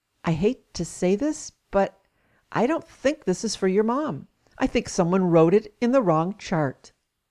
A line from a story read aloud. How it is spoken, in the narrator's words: The nurse quietly said to me